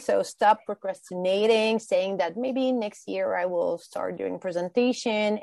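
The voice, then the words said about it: Non-native English accent. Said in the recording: “English is not my primary language. I do have an accent.”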